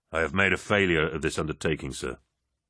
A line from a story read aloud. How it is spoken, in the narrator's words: Loken said